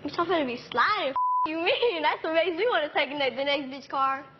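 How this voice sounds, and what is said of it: Strong street accent, hard to understand. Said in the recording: “I didn't get that. Are you speaking English? ... Do you have an accent of some sort? ... From the street.”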